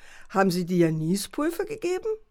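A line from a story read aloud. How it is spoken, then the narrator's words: Father mocking. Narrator (German): spottete der Vater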